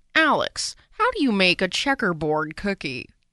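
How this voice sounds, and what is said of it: Good Martha Stewart impersonation. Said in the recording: “that was a good impersonation”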